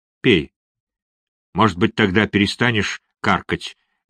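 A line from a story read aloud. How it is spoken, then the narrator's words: Rude. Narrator (Russian): грубо сказала Бесс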